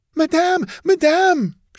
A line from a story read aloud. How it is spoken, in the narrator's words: cried